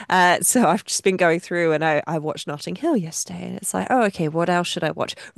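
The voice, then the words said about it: Voice sounds unwell. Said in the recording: “I've been spending a lot of time recovering at home, as you might be able to tell from my voice.”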